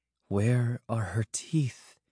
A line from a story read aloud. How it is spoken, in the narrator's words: Minora murmured